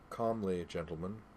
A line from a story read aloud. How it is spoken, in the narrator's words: the faceless man said in a calm voice